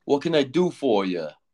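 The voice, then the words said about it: Put-on New York accent. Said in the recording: “typical New York accent that you would hear in a TV show”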